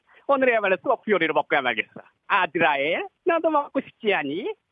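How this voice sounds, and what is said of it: Cartoon villain character voice. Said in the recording (Korean): “가가멜 ⟦성대모사⟧ ... 제가 전문 가가멜을 들어볼게요”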